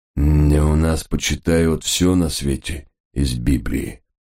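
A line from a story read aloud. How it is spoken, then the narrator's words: Gruff priest's grumble. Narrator (Russian): буркнул батюшка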